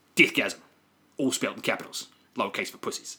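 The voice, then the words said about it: Imitates a film character's accent. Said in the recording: “That was the best accent”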